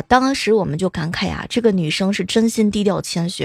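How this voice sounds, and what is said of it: Usual voice. Nothing is said of it.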